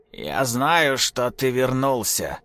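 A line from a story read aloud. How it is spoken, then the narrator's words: Hoarse voice. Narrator (Russian): сказал Тимофей хриплым голосом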